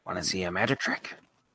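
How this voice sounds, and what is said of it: Joker character voice impression. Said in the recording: “That's my impression ... That was good. It's not bad.”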